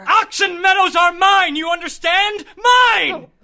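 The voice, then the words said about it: Angry shouting. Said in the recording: “Oh, please don't shout. You can shout yourself hoarse in your own house.”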